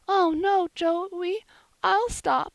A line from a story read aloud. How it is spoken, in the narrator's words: Polly sobbed out